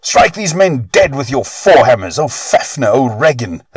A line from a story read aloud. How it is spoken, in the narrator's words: their father cried